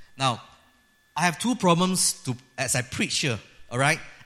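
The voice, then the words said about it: Malaysian-accented English. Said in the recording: “we have a trouble speaking in American accent, you know. So we still keep on to our Malaysian accent”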